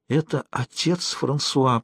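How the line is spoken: Whisper. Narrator (Russian): прошептала она

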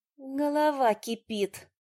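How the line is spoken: Moaning. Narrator (Russian): простонала

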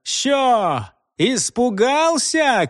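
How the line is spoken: Shouting. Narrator (Russian): крикнул Нечепуренко

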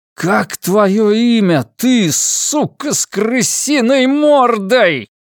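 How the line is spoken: Shout. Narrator (Russian): прокричал я

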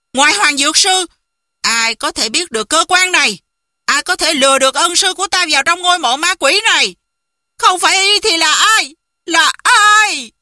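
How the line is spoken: Loud shout skyward. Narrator (Vietnamese): Sừng ngẩng đầu lên trời, quát lớn một tiếng

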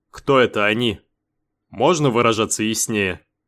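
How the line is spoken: Grumbling mutter. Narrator (Russian): пробурчал Бен

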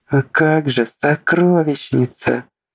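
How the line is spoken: Desperate moan. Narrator (Russian): почти простонала Лисита, в отчаянии

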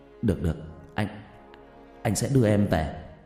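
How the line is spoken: Stammering. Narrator (Vietnamese): lắp bắp

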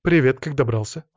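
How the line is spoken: Dry question. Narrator (Russian): сухо спросила она

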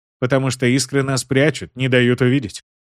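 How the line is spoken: Plain. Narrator (Russian): ответил Уилл

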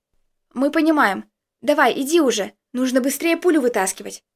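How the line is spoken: Calm. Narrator (Russian): спокойно произнес Костик

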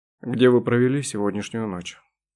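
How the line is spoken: Gloomy question. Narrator (Russian): мрачно спросил Дронго

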